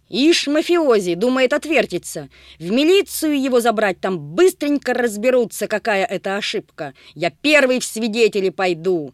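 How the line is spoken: Heated shouting. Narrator (Russian): Распалившись, кричал сизоносый

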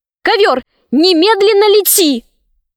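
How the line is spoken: Shout. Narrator (Russian): Шахерезада закричала

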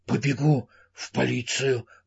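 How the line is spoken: Breathy exhale. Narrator (Russian): выдохнул он

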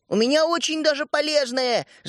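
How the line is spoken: Boy shouting from afar. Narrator (Russian): закричал мальчишка из-за класса

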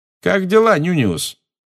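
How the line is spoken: Loud. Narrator (Russian): громко сказал Джеймс

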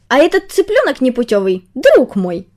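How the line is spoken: Offended. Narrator (Russian): Сказал он, обиженно

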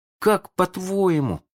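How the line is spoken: Uncertain question. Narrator (Russian): спросил Шалун неуверенно

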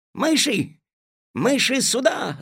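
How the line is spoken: Shouting. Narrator (Russian): закричал Алешка

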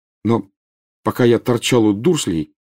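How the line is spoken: Firmer interrupting voice. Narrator (Russian): перебил Гарри более твердым голосом

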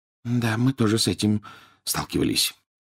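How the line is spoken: Barely audible whisper. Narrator (Russian): еле слышно прошептал Рон

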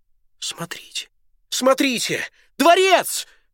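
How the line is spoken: Sudden exclamation. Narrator (Russian): Вдруг капитан Бузург воскликнул

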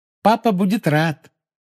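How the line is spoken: Cheerful promise. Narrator (Russian): весело пообещала Полумна

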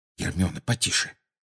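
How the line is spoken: Muttering. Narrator (Russian): пробормотал Гарри

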